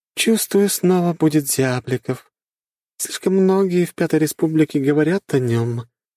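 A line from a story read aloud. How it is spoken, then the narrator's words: Sighing, young woman. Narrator (Russian): вздохнула девушка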